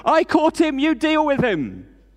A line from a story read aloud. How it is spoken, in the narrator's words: shouts through the window